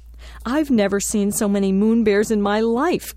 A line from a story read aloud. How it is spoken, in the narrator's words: Gary exclaims with delight